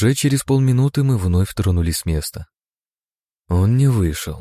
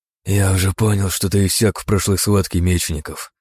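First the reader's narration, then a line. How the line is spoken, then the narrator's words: Hoarse wheeze. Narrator (Russian): просипел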